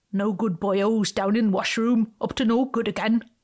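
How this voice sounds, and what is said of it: Poor attempt at Welsh accent. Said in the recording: “That's a terrible accent imitation, not Welsh at all”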